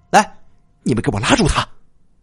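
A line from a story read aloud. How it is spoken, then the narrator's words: Angry, humiliated. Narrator (Chinese): 他恼羞成怒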